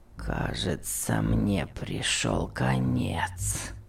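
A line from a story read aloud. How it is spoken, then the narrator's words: Groaned. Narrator (Russian): простонал Том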